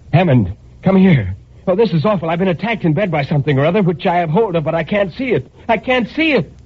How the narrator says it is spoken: I shouted to him

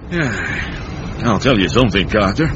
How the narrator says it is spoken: Uncle Mort sighed and said

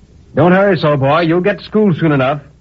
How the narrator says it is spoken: the blacksmith, who was reading the notice with his apprentice, cried to me

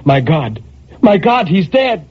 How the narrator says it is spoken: Then a terror took hold of her, and she cried

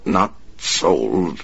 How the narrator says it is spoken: the man stammered

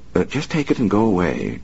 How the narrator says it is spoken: she said calmly

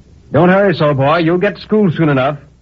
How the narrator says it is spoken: the blacksmith cried to me

